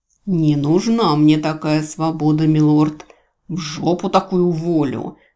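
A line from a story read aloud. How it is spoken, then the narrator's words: Bodyguard growling. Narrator (Russian): зарычал телохранитель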